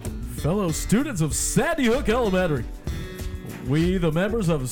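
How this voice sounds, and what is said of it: Announcer-style radio voice. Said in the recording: “Let's see if I can get my radio voice on.”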